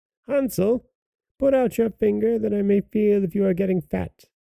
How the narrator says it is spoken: the old woman cried

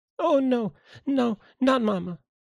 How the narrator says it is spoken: cried Violet, shaking her head sadly

